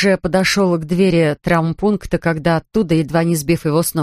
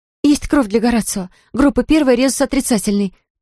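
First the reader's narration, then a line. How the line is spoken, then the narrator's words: Urgent shout. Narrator (Russian): прокричала она дежурной медсестре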